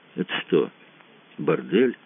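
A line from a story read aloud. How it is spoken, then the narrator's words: Quiet question. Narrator (Russian): спросил тихонько Мазур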